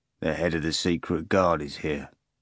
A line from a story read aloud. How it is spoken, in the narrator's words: Mark informed calmly